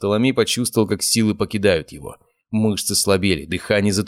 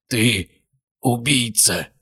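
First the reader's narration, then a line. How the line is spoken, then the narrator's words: Hoarse rasp. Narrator (Russian): прохрипел он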